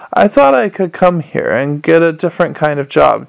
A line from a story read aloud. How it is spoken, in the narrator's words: Cheery moaned